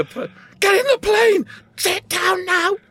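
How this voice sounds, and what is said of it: Aggressive shouting robber voice. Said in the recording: “a robber's accent”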